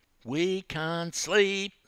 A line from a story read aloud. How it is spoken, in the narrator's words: squealed a couple of the younger girls